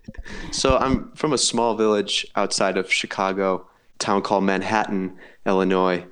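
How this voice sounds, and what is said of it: American accent. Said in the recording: “You're from the States. Yes, you can tell by the accent.”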